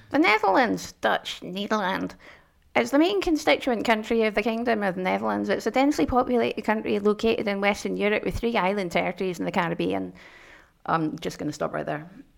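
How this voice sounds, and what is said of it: Mild put-on Scottish accent. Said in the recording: “if you do it in a broader Scottish accent ... That was the accent. It sort of turned to 8, not 11”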